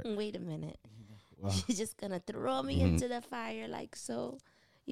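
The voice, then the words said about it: Put-on Jamaican accent. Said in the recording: “You like my Jamaican Jamaican accent?”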